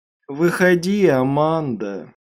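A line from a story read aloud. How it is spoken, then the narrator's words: Teasing singsong call. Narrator (Russian): звала она дразнящим певучим голосом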